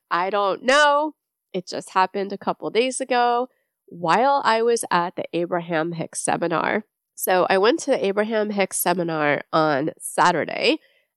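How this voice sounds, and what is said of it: Nasal, congested voice. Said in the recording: “I'm sure you can hear in my voice, sounds a little bit nasally. Yes, I am sick again.”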